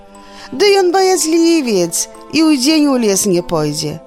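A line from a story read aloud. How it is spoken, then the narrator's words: Cheerful laughing girl. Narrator (Belarusian): Дзяўчынка весела засмеялася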